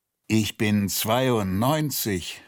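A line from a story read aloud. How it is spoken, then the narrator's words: Groaning. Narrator (German): stöhnte er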